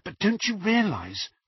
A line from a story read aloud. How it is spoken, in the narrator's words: whispered Hermione